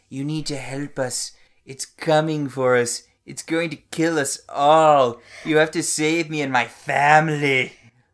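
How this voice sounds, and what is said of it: Dramatic distress voice, attempted Australian accent. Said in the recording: “I don't know what voice you're doing... I'm pretty sure it's just an Australian accent... That's not what Australian people sound like”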